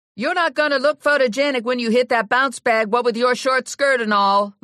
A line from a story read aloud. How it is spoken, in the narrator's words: Lula yelled at Ginny